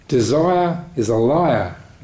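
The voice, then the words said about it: Poor imitation of Australian accent. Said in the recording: “he had an Australian accent ... My bad Australian accent.”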